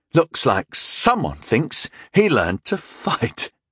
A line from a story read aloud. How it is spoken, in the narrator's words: chuckled nastily